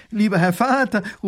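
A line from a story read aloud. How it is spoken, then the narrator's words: Call. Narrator (German): ruft die Prinzessin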